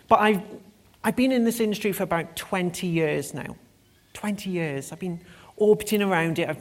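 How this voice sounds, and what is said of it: British accent. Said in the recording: “my beautiful and enunciated accent, I am actually British”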